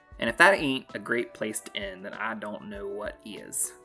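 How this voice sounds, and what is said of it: North Carolina Southern accent. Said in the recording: “You like that little accent coming in at the end? Yeah, I'm from North Carolina.”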